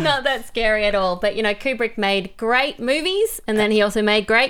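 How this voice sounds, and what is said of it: Australian accent. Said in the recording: “her amazing Australian accent”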